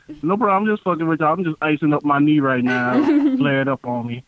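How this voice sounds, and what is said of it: Southern US country accent. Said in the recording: “my country accent ... your country accent”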